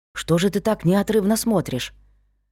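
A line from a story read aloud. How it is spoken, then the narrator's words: Whisper in the ear. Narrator (Russian): шепнул мне на ухо Вик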